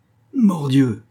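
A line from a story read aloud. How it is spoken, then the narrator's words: Exclamation. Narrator (French): s'écria d'Artagnan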